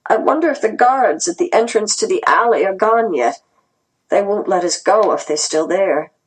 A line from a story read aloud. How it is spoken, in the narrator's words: Grandma said weakly